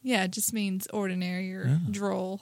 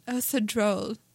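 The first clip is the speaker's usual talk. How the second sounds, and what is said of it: Poor put-on English accent. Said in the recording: “Just imagine English accent. ... My accent handicap rears its ugly head.”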